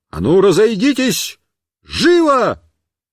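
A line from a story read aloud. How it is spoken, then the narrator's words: Shouting. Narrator (Russian): Я им крикнул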